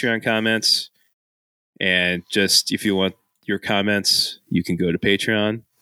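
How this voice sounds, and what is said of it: Usual voice. Nothing is said of it.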